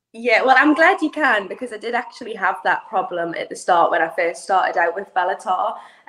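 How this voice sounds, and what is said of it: Toned-down UK accent. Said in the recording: “you don't have that thicker accent that I noticed that those up north ... my accent is actually really, really thick. But over the years, I've just kind of, when speaking to people, learned to tone it down a little bit”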